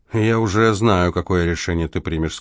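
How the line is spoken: Plain. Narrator (Russian): сказал Селитта

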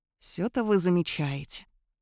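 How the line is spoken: Grumbling while smiling. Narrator (Russian): пробурчал Кайлин, продолжая улыбаться

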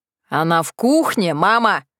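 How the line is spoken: Booming male voice. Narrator (Russian): прогремел мужской голос

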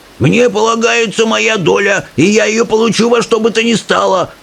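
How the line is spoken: Yelling old man. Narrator (Russian): орал дедушка Джордж

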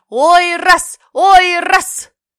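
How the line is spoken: Crowd shouting. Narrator (Russian): куча людей, закинув на горевшую стену длинный багор, дергала его за веревку и кричала

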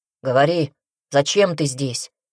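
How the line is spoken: Grumbling. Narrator (Russian): пробурчал он

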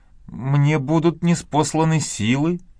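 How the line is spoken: Tremulous voice. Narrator (Russian): трепетным голосом проговорила Мэгги

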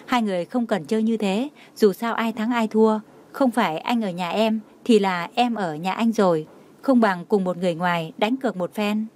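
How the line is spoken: Smiling. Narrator (Vietnamese): Jenny mỉm cười nói

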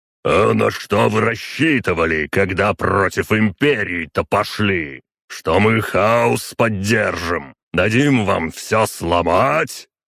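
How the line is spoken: Booming bass growl. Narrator (Russian): прорычал своим зычным басом Ророгов

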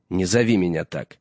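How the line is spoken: Sharp, anger fading. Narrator (Russian): резко сказал Джон, но гнев его поутих

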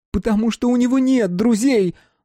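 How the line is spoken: Loud ringing shout. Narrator (Russian): закричала Лиза, и этот крик вырвался из горла ярко и звонко

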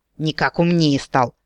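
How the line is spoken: Knowing snort. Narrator (Russian): понимающе хмыкнула гномка

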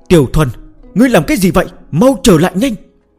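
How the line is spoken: Frightened, trembling. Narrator (Vietnamese): Hầu Tiểu Muội run rẩy vì sợ hãi và lo lắng

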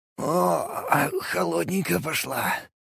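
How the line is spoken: Exhaled. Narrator (Russian): выдохнул я

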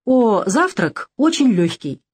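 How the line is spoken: Cheerful exclamation. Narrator (Russian): весело воскликнул Савелий

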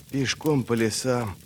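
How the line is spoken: Whisper. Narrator (Russian): прошептал Бринт

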